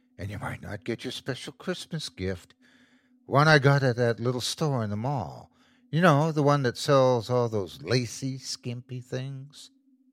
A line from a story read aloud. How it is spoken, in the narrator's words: she whispered